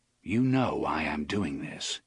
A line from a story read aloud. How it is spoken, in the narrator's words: he said calmly